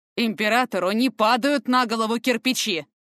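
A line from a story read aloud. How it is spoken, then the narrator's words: Barking snap. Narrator (Russian): рявкнул Фортем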